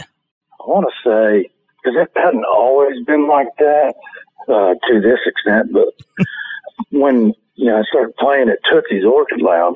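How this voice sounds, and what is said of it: Gravelly, raspy voice. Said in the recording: “it sounds like you gargle with gravel. You've got a gravelly voice, but it's so distinct ... it's really bad sounding. It sounds like you gargle with scotch and smoke cigars all day long”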